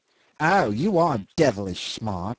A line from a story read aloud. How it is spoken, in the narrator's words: he sneered